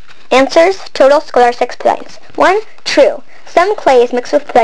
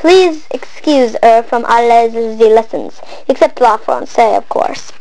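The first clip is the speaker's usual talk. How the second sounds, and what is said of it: Put-on French accent. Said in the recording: “foreign accent syndrome ... she only talk in the French accent”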